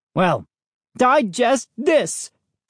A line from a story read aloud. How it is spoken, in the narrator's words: Dad screamed